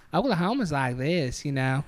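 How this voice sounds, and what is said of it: Put-on Oklahoma accent. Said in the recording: “We're doing our Oklahoma impressions. ... Is that an Oklahoma accent? ... It's got a lot of charm to it.”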